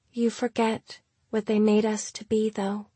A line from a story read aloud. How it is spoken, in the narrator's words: she said, softly, gently